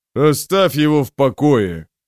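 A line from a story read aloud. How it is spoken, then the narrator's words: Growled. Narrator (Russian): прорычал Броуд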